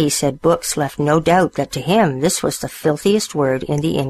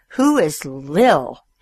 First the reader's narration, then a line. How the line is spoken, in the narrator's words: He spat the words out like bullets